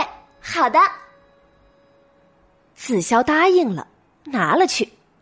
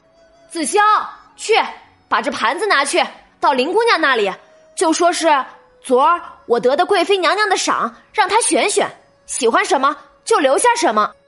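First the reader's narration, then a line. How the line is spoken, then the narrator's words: Calling outward. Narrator (Chinese): 向外喊了一声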